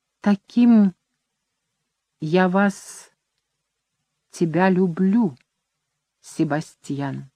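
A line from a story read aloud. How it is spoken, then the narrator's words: Barely audible whisper. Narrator (Russian): И очень тихо, так тихо, что он едва расслышал, Люсинда прошептала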